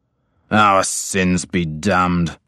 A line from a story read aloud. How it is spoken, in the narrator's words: my father snarled